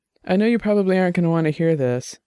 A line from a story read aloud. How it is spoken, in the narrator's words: Dex said, his voice a little thick from the rum